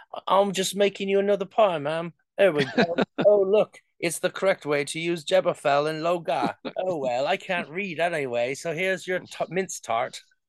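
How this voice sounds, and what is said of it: Put-on old-fashioned British accent. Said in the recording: “that is an accurate British accent to the Elizabethan time.”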